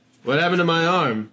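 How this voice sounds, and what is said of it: Character voice for a video game hero. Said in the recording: “my impression”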